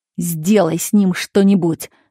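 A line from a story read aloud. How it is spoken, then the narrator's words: Irritated shout. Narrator (Russian): раздраженно крикнул водителю чиновник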